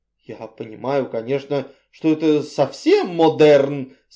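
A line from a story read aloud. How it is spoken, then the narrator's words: Pleading mutter. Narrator (Russian): с мольбой пробормотала миссис Ривз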